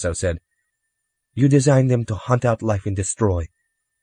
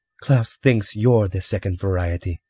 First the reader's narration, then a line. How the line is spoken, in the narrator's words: Tasso said calmly from behind them